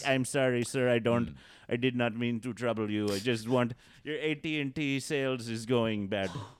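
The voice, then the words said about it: Put-on Indian accent. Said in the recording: “come up with like an Indian accent”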